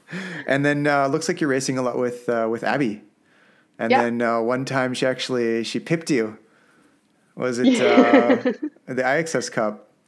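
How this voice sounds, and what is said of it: Canadian accent. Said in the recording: “my Canadian accent, eh?”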